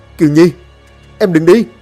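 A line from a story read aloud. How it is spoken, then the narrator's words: Crying out. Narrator (Vietnamese): Long liền kêu gào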